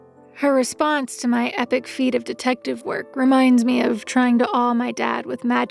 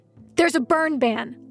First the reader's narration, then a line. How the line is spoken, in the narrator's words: Lou barks back